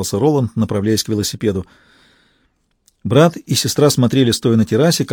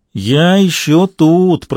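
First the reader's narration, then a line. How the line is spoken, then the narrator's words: Singsong. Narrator (Russian): произнес Макс нараспев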